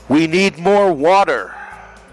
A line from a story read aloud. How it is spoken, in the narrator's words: flood victims, locked behind metal barricades, shouted